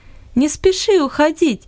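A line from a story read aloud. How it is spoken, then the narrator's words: Laughing. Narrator (Russian): засмеялась Луис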